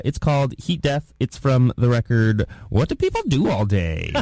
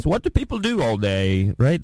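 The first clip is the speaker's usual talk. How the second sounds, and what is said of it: Put-on British accent. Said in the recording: “That's a good British accent.”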